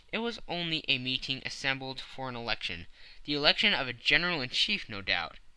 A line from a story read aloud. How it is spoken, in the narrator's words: asked Mr